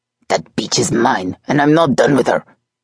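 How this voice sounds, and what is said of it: Thick accent, menacing voice. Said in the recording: “His accent was so thick, it was nearly impossible to know for sure. But the menace in his voice was unmistakable”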